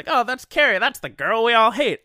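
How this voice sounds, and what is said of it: Puts on an accent. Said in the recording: “I have an accent now.”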